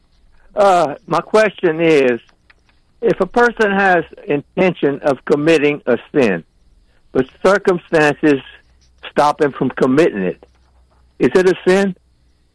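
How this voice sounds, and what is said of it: Louisiana Cajun accent. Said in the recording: “Do I hear Lafayette or Crowley in your accent?”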